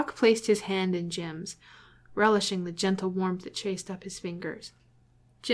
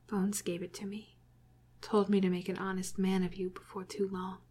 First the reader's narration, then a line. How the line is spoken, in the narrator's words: he whispered